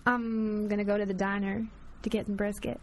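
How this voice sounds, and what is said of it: Put-on Southern belle accent. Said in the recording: “In your Texas Bell accent. ... Southern Bell. ... That's good. That's really good. ... It was more Alabama than Texas.”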